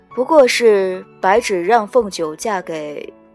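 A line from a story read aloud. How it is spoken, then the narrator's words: Calm, light voice. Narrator (Chinese): 墨渊上神却先开了口，嗓音清清淡淡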